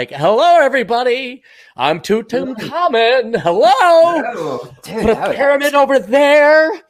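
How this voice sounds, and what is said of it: Flamboyant, theatrical character voice. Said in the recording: “I thought it was like a very flamboyant Pharaoh.”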